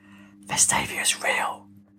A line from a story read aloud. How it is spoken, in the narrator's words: She whispered